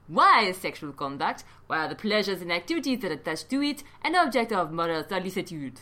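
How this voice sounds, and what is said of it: Put-on French accent, drifting vaguely European. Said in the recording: “He's French, by the way. ... I think I went out of a French accent to just a vaguely European one there.”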